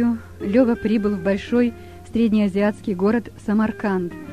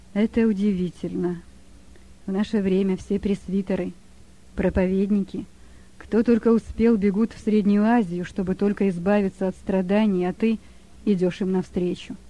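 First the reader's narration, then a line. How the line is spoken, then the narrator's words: Barely audible old man. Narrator (Russian): Старик едва слышно произнес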